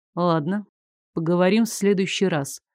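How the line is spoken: Calm. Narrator (Russian): спокойно сказал

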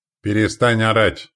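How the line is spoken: Stern. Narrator (Russian): строго сказал

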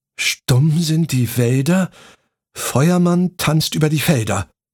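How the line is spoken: Uncertain voice. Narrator (German): Frau Stine mit unsicherer Stimme selbst fortfuhr

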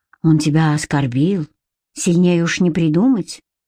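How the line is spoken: Sigh. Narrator (Russian): вздохнула Катерина

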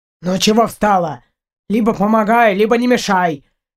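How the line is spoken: Rough, harsh. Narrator (Russian): грубо сказал Партур

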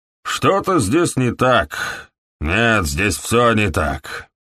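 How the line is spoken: Growl. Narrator (Russian): прорычал доктор

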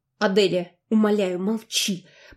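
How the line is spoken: Hissed reply. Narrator (Russian): прошипел в ответ Энрон

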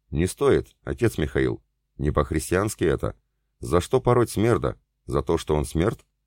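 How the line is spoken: Ingratiating sweet voice. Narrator (Russian): Вкрадчивым и сладким голосом поинтересовался стольник

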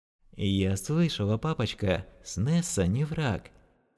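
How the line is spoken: Sleepy child's whisper. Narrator (Russian): прошептал сонный детский голосок

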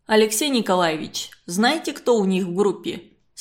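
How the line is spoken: Plain. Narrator (Russian): спросил Щербаков

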